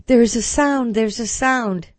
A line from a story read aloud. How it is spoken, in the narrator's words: she cried out